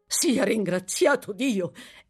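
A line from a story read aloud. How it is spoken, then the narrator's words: Old man's exclamation. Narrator (Italian): esclamò l'anziano signore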